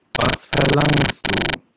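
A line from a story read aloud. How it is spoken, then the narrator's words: Plain question. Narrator (German): fragte er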